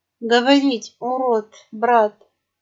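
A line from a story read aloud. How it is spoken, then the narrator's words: Hoarse wheezing reply. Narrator (Russian): прохрипел он ей в ответ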